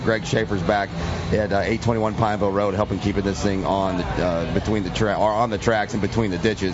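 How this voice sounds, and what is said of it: Scratchy, half-lost hoarse voice. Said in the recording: “I apologize with how scratchy this is going to sound ... I'm losing my voice ... my voice is about half gone”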